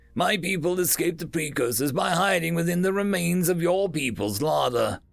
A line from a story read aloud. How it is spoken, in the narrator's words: Bokuduist said, the dry joke